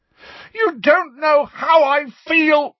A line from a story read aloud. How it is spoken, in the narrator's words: Harry roared